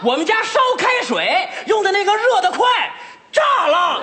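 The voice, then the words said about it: Shouting loudly. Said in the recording (Chinese): “你别喊了，兄弟，你别喊了”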